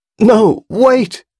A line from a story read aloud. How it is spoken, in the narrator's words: she cried desperately, but she was too weak